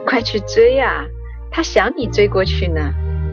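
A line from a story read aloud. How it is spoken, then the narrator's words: Laughing. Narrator (Chinese): 星美笑道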